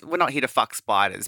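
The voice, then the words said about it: Poor attempt at Australian accent. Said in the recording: “that's not even an Australian accent”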